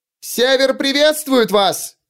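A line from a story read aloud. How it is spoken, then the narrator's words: Yelling. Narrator (Russian): завопила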